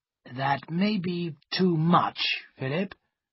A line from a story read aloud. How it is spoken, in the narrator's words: he said slowly